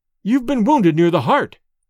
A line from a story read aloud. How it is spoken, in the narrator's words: cried Dorda, his face pale